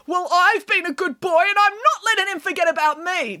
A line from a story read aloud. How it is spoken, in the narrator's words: declared Boris